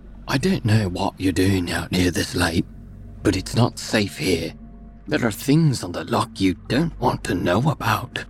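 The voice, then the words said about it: Quiet rural Scottish accent. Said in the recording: “she said quietly in her rural Scottish accent.”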